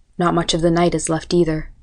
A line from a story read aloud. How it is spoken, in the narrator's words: muttered